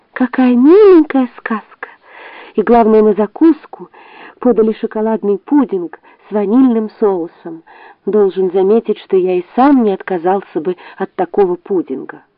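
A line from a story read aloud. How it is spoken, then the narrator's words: Young ant, heavy sigh. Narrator (Russian): молодой муравей, тяжело вздохнул и сказал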